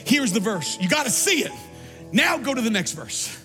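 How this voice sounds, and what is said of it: Yelling, loud preaching voice. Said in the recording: “I'm sorry I'm yelling at you up there.”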